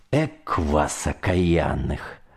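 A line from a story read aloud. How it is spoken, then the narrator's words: Grumbled without malice. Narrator (Russian): проворчал я на них незлобиво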